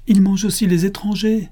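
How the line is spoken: Exclaimed. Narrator (French): s'écria Dondin

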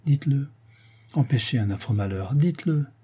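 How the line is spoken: Pleading. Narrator (French): Sylvia, suppliante

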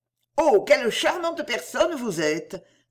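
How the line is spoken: Exclaimed. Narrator (French): s'écria Lady de la Cour

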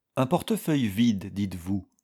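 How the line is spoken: Plain question. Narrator (French): demanda l'avocat

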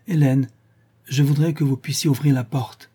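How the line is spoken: Worried tone. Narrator (French): répondit-elle de même d'un ton inquiet

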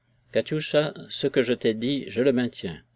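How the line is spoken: Grave, firm tone. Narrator (French): dit-il d'un ton grave et ferme

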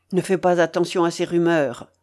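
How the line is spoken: Cold retort. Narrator (French): répliqua froidement le Templier

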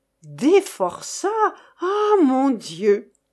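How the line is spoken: Intrigued women exclaiming. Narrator (French): s'exclamèrent les dames de plus en plus intéressées

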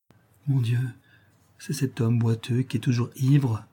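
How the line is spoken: Mother speaking quietly. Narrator (French): dit tout bas la mère

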